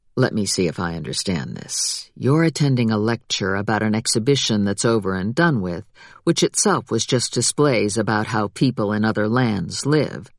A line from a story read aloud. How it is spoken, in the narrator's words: he leaned close and said in a low voice